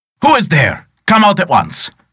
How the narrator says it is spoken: shouted the poor man beside himself

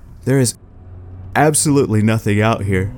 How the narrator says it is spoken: yawned

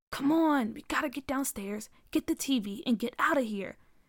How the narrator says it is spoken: JR whispered

